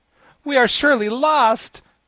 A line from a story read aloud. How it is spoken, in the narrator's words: cried Ginger in despair